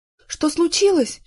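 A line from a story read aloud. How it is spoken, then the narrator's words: Frightened question. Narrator (Russian): испуганно спрашивала Ася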